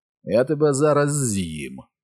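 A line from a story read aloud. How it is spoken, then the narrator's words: Giant's low rumbling voice. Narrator (Ukrainian): промовив велетень низьким гуркотливим голосом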